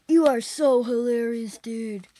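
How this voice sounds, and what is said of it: California surfer accent. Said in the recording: “That's a surfing accent, a California kind of surfing accent.”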